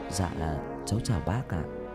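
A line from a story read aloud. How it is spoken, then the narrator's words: Quiet, soft voice. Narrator (Vietnamese): Tân nhỏ giọng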